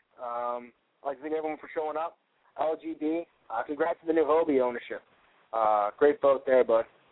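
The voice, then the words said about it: Strained, failing hoarse voice. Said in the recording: “As you can hear, I'm starting to lose my voice again.”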